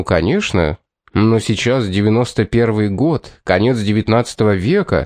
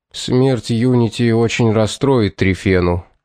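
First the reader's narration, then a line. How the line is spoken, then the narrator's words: Sad tone. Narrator (Russian): печальным тоном произнес он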